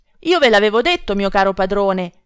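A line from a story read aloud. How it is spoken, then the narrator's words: Distressed shout. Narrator (Italian): grida afflitto Cacambo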